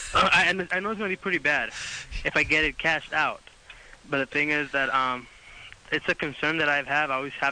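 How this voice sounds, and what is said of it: Thick foreign accent. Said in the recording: “You have a thick accent.”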